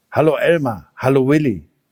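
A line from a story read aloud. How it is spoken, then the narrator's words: Plain. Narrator (German): sagte der Elefant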